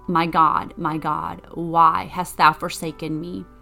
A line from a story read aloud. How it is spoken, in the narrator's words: Jesus cried